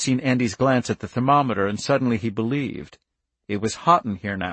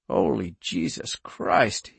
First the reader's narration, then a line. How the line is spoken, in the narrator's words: he said hoarsely